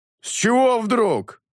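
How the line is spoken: Thundering voice. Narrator (Russian): прогремел кровь

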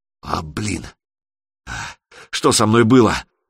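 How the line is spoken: Hoarse rasp. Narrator (Russian): прохрипела Алена

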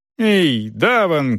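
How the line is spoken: Shout. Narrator (Russian): крикнул он

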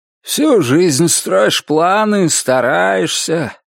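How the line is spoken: Muffled unseen voice. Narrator (Russian): глухо звучал невидимый голос

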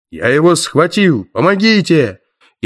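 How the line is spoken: Rough voice yelling. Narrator (Russian): грубый голос заорал над ухом

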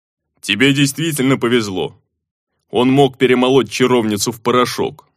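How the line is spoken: Orc grumbling. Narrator (Russian): проворчал орк

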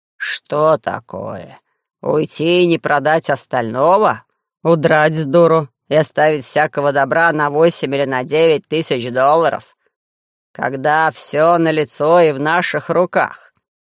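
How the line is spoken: Grumbled. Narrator (Russian): Герцог заворчал

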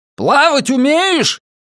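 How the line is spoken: Full-force bellow. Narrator (Russian): гаркнул я изо всей мочи

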